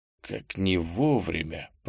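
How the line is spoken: Muttering. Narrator (Russian): пробормотал

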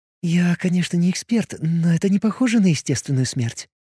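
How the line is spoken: Whisper. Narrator (Russian): прошептала Алиса

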